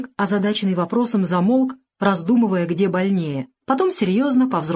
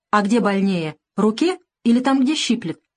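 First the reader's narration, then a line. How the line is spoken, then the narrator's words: Calm inquiry. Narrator (Russian): спокойно поинтересовался профессор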